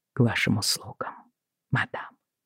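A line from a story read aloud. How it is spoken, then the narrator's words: Barely audible. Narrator (Russian): произнес он еле слышно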